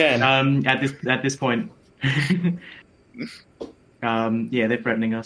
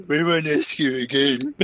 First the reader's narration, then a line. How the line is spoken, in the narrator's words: say mockingly